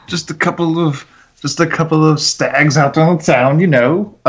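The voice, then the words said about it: Put-on accent. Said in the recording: “I don't know why I'm still doing this accent.”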